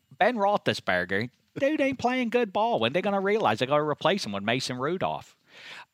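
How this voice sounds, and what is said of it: Pittsburgh accent, Deep South notes. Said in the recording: “are you from the Deep South? Are you from Alabama? ... Are there notes of Deep South in the Pittsburgh accent? ... my weirdo accent”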